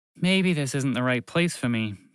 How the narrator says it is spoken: thought out loud, and sighed

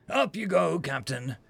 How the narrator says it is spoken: Zoe said through gritted teeth

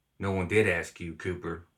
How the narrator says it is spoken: Wesley said quietly

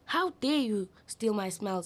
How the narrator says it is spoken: he shouted

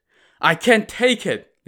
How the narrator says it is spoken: Lin Chong cried

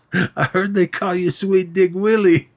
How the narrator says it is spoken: starts laughing

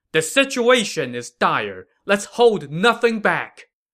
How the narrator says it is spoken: Jiang Wei shouted to his men

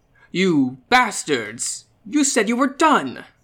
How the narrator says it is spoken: Caesar exclaimed

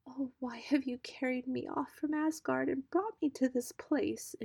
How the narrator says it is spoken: cried

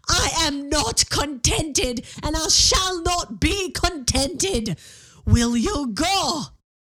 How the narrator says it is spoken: screamed

